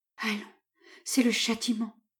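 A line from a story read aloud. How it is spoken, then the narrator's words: Murmuring. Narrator (French): murmura mademoiselle Rumigny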